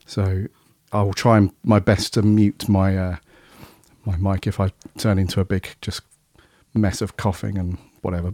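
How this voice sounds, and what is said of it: Hoarse, weakened voice. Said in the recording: “my voice is still a bit shot ... At least you have got a slither of a voice this time”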